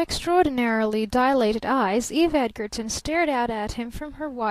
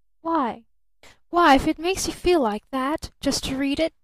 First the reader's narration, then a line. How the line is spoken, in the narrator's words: she reproached him mournfully